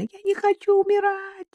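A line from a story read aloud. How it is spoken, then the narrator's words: Frightened girl screaming. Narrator (Russian): закричала испуганная девушка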